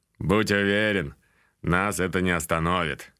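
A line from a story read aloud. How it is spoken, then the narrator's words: Orc snorting. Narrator (Russian): хмыкнул орк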